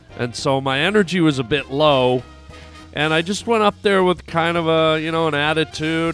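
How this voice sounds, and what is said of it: Sick, under-the-weather voice. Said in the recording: “as you can hear by my voice, i I was a little bit under the weather. I got this like cold and flu thing”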